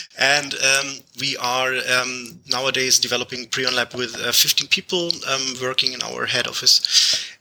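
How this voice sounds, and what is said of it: German-accented English. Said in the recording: “I'm from Germany, which is the case where I have this strange accent”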